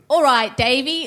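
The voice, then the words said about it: Put-on Cockney accent. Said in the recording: “We need to hear her cockney accent ... Here's me cockney accent.”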